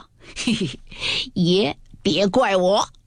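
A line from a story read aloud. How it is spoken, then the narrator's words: Laughing. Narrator (Chinese): 贝明也笑道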